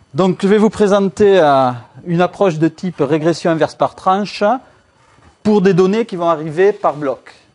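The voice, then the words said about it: Strong sing-song southern French accent. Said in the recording (French): “accent tellement fort du Sud que c'est presque de l'étranger lorsqu'on est à Lille ... cet accent chantant du Sud”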